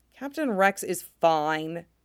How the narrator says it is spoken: Fives mutters

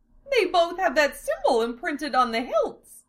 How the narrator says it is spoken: Amelia exclaimed

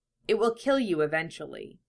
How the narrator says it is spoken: Lamia murmured, her voice indifferent and uncaring now that she realized he was inedible

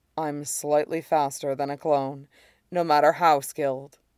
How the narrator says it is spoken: he says quietly

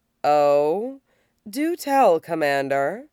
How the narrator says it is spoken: drawls

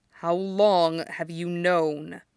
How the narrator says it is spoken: he asks, his voice stiff, an inch away from a snarl

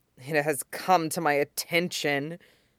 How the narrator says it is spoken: Shota muttered into his hand, voice thick with disgust

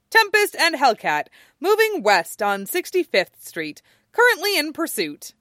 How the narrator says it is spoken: her tracking program cheerfully declaring

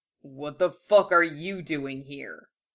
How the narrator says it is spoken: growled

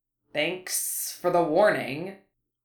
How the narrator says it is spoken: Harry hissed sarcastically

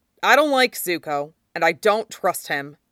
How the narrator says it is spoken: Sokka said grimly

